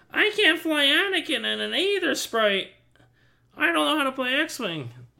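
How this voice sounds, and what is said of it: Imitates another person's voice. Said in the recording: “That's my impression of Brett.”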